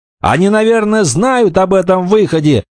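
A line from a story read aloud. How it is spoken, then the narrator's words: Shouting. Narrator (Russian): прокричал Роберт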